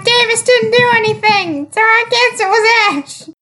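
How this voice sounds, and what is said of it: Strained, grating cartoon-creature voice. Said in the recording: “Jigglypuff! ... you sound like you're having a stroke ... My voice is stuck like this! ... this voice ... People's ears will bleed.”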